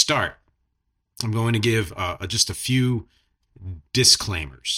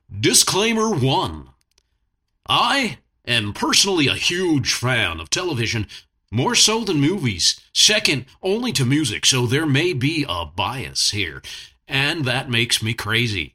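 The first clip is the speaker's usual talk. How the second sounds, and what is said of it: TV announcer voice. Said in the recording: “I'm going to do it in a TV announcer voice.”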